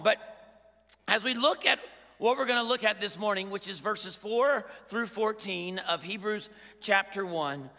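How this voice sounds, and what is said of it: Scratchy, strained voice. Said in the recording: “my voice is scratchy ... my voice was gone”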